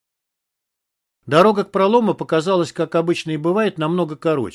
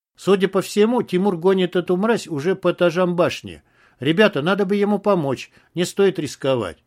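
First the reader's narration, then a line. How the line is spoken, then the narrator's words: Plain. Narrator (Russian): ответил Тельбис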